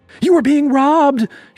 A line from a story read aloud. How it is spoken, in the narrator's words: she screamed, faking surprise